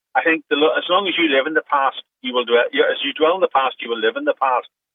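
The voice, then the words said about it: Northern Irish accent. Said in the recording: “As you probably hear from the accent, I'm from Northern Ireland”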